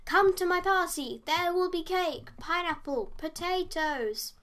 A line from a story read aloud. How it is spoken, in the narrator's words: He shouted